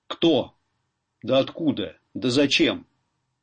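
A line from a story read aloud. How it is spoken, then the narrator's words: Stern questioning. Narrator (Russian): Городничий Федорчук взял его на расспрос и вызнавал строго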